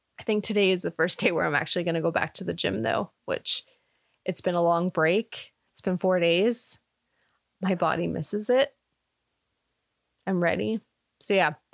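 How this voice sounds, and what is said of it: Slightly hoarse, throaty voice. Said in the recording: “I probably sound like not hoarse, but like I've got it in my throat. It's all the smoke.”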